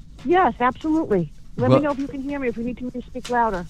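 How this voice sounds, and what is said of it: New Jersey / New York accent. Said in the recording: “I could hear her beautifully, and I hear a beautiful New Jersey, New York accent.”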